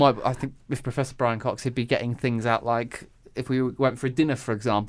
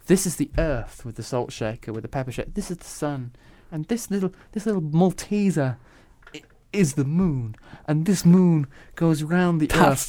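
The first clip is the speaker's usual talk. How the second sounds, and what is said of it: Imitates another person's voice. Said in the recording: “That's not a bad impression.”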